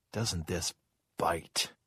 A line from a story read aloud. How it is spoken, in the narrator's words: George said in a low voice